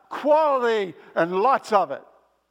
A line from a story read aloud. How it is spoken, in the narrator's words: they screamed out